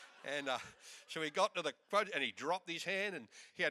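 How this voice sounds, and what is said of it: Usual voice. Nothing is said of it.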